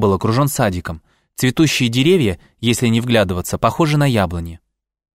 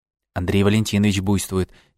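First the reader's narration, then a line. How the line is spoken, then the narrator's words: Quiet. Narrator (Russian): тихонько сказала Маша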